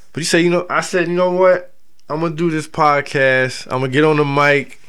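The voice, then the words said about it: Delaware American accent. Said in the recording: “my filthy Delaware accent”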